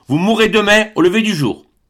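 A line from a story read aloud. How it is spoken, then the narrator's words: Exclaiming. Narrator (French): s'écria Kai-Koumou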